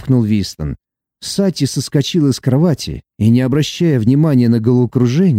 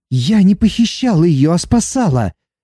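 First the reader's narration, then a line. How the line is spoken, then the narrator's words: Protesting exclamation. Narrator (Russian): протестующе воскликнула Сати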